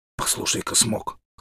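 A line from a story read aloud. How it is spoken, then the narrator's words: Child's hoarse whisper. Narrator (Russian): хриплым голосом зашептал малыш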